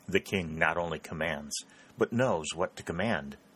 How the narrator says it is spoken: said Raymond softly

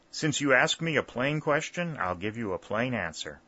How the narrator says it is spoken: replied Dick

